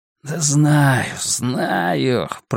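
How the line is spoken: Mumble. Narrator (Russian): пробормотал Хаб

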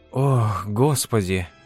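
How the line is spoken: Breathless exhale. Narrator (Russian): выдохнула Глория

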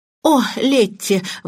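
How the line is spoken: Exclaiming. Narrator (Russian): воскликнула мисс Баннер

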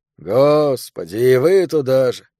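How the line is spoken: Sighing. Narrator (Russian): вздохнул Тео

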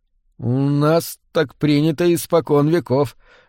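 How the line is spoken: Uncertain objection. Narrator (Russian): неуверенно возразил Хэкапай

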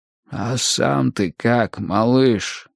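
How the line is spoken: Hoarse question. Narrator (Russian): хрипло спросил Булин

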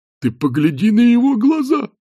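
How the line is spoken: Exclamation. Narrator (Russian): воскликнул один

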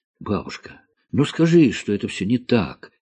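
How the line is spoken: Pleading. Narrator (Russian): взмолилась Алиса, которая не выносит, когда ее хвалят незаслуженно

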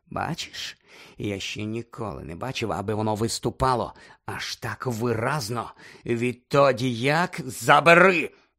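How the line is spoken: Growled. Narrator (Ukrainian): прогарчав Снейп

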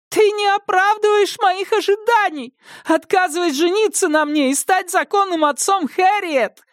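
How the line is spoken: Shrieking, voice breaking. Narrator (Russian): Срываясь на визг, прокричала Кэролайн

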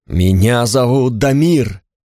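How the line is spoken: Emphatic, almost shouted. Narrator (Russian): сказал он с нажимом, почти выкрикнул

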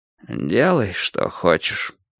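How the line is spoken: Dejected. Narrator (Russian): уныло сказал Кораблев

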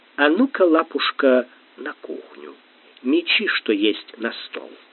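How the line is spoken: Whisper. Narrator (Russian): Гамлет прошептал

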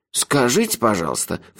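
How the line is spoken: Scornful snort. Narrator (Russian): фыркнул Мелифара

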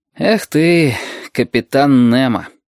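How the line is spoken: Sigh. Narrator (Russian): вздохнул он наконец

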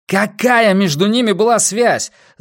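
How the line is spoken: Forceful yelling. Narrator (Russian): заорал он на нее, заполнив своим напором всю комнату

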